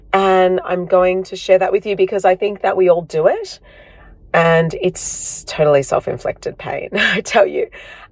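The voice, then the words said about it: Husky, slightly hoarse voice. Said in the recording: “my voice is a little bit husky today. That's because I am unwell. ... you might hear that I sound a little bit different today”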